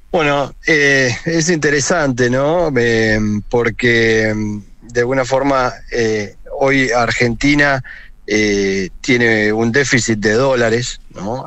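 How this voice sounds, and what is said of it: Distinctive regional Spanish accent. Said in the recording (Spanish): “Me encantó ese acento.”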